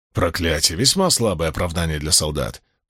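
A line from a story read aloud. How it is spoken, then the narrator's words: Grumbling. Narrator (Russian): проворчал Уна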